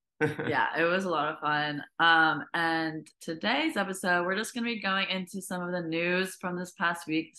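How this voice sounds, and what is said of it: Slightly hoarse voice. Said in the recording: “my voice is a little bit hoarse right now from all the singing”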